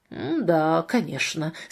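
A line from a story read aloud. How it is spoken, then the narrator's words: Skeptical mutter. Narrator (Russian): скептически пробормотал Марк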